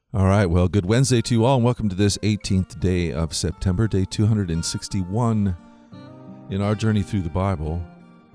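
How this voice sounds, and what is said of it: Sick, slightly strained voice. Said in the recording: “you might hear it in my voice a little bit today. I'm a little under the weather ... Whenever I get sick, it always seems to come after my throat and my voice.”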